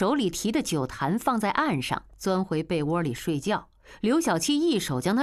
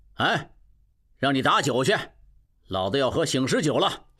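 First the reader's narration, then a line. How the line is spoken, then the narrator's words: Loud. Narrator (Chinese): 刘小七 大声道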